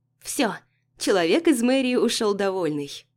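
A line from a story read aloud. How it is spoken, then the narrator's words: Joyful. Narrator (Russian): радостно проговаривает наша официантка Катя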